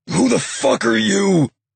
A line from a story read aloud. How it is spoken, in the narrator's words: Hutch growled